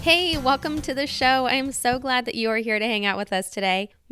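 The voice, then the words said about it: Voice sounds different from illness. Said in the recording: “you probably recognize my voice sounds a little bit different ... I am getting over probably one of the worst illnesses I've had in a long time ... I'm still fighting for my voice”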